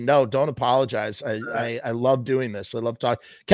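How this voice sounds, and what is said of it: Strained, fading hoarse voice. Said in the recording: “I'm kind of losing my voice right now”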